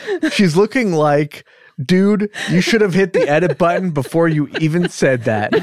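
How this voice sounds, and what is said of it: Usual voice. Nothing is said of it.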